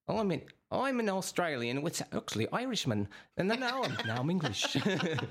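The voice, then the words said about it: Bad Australian, Irish, English accents. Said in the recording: “it'll go to Australian, and they'll just completely disappear ... All three of those were terrible”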